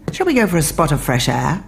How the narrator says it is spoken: brightly added

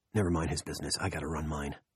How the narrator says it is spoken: he said in a low voice

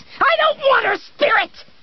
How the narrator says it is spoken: she screamed

